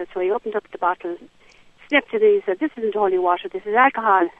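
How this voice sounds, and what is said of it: Genuine Irish accent. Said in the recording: “the accent there, I think that accent is real... It's real. I'm from Sligo... From Sligo, from County Sligo”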